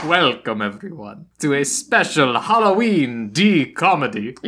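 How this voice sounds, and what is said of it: Put-on Dracula-style Transylvanian accent. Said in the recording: “You just sound Italian ... Nah, maybe a little ... I think I sound relatively Transylvanian ... What Dracula sounds like”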